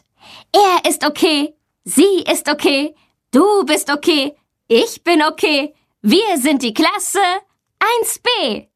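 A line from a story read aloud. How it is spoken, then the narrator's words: Children speaking loudly together. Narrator (German): Alle Kinder sprechen laut mit, außer Tommy und Valentina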